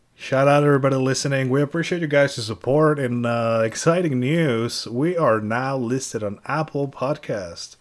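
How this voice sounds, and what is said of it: Raspy voice. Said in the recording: “Excuse a raspy voice. It's been a long week.”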